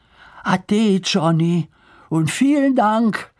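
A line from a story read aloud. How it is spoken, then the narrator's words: Calling out. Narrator (German): rief Lars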